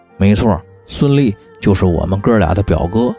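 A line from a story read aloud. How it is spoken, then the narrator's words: Hurried low voice. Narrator (Chinese): 谢珍赶忙低声说道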